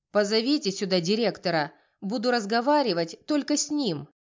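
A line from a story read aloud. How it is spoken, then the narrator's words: Lady barking. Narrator (Russian): рявкнула дама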